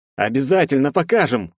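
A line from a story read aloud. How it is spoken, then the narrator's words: Shouted. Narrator (Russian): выкрикнул Герцен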